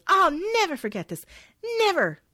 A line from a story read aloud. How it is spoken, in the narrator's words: yelling